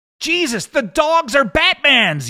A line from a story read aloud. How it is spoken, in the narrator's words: yelled Dale